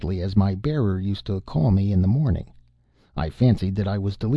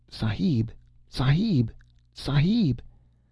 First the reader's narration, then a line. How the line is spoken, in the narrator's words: someone was calling to me in a whisper